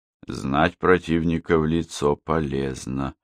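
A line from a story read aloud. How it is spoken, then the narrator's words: Plain. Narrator (Russian): сказал он наконец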